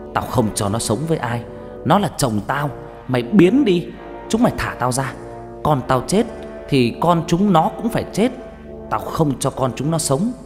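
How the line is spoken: Ghost screaming. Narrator (Vietnamese): Cái âm hồn đó hét lên

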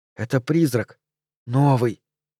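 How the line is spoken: Boy whispering. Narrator (Russian): мальчишки с фермы и его шепот

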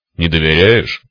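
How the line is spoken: Cyclops's snort. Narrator (Russian): хмыкнул циклоп

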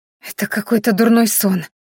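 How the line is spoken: Feverish whisper. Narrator (Russian): лихорадочно прошептала Майяри

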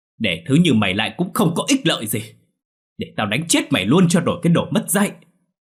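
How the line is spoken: Sudden loud shout. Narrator (Vietnamese): Đột nhiên hét lớn

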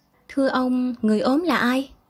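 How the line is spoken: Soft question. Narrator (Vietnamese): Vũ hỏi khẽ Xuân

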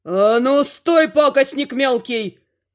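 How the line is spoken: Demon's menacing roar. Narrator (Russian): ревет грозно демон

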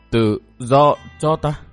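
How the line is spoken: Stammering word by word. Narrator (Vietnamese): Âu Dương Chi Hô lắp bắp từng chữ

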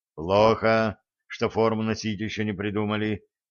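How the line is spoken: Muttered under breath. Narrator (Russian): буркнул себе под нос Середин

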